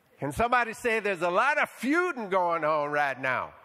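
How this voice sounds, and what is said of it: Foghorn Leghorn style Southern accent. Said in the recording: “Should I just keep this accent and preach my whole sermon like this? ... Little foghorn leghorn going on.”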